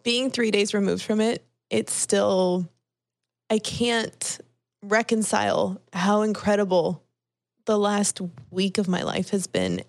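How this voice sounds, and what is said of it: Tearful, crying voice. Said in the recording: “I'm crying. No. I'm like actively crying right now. ... you can hear the tears in my voice.”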